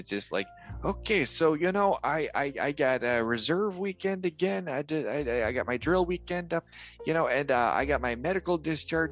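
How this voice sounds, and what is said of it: Impression with thick Chicago accent. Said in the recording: “you somehow have the world's thickest Chicago accent despite not being from the Windy City ... Now I sound like Mike Ditka. It was just my impersonation of Derwin”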